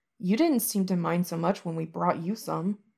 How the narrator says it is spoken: Wei Wuxian mutters

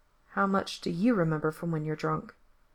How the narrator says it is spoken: Gerard asks quietly

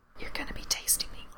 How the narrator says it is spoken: Frank whispers

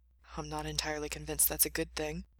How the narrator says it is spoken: Mikey muttered

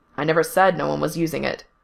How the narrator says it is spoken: Fungul said, still in that same clipped tone

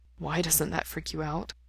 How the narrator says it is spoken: Mikey asks softly

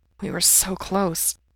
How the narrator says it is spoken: he murmurs

